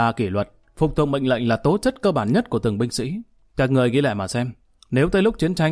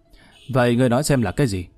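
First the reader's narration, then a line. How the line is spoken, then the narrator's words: Sighing. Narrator (Vietnamese): Lý Kỳ thở dài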